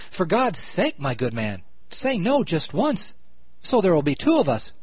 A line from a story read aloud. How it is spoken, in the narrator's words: Tired at last with the monotony of acquiescence, the gentleman cried out